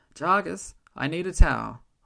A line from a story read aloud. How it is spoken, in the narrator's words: I called out, my tone one of instruction rather than desperation